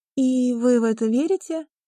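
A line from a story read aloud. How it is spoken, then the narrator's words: On the verge of laughing. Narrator (Russian): Она готова была рассмеяться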